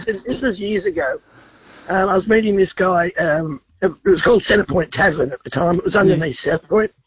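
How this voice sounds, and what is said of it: Congested, sick-sounding voice. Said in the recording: “sorry about the voice. I've got a cold.”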